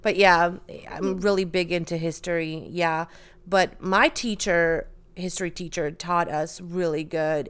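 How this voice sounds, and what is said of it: Emotional, choked-up voice. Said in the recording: “getting choked up.”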